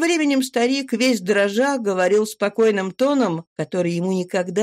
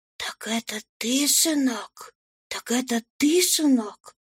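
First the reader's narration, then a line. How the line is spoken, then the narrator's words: Agitated whisper. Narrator (Russian): Крестьянка от волнения шептала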